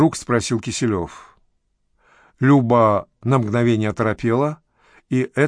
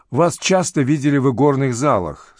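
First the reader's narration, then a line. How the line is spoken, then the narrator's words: Calm. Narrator (Russian): спокойно продолжал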